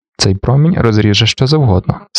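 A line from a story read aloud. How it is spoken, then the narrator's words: Calmly remarked. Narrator (Ukrainian): спокійно зауважив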